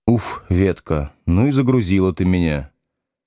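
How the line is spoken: Sigh. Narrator (Russian): вздохнул Слушкин

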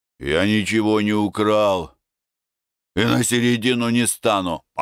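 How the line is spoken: Grumbled. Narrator (Russian): Опришко пробурчал

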